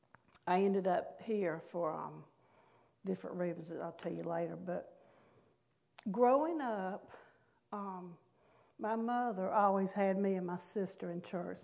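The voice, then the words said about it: North Carolina Southern accent. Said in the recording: “in case you can't tell by my accent, but I was born and raised in North Carolina”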